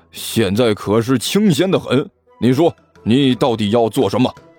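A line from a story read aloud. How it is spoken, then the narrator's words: Loud. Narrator (Chinese): 李安都大声说道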